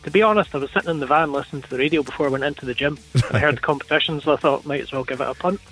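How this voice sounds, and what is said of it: Scottish accent. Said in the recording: “Is that a Scottish accent? ... Yes, it is.”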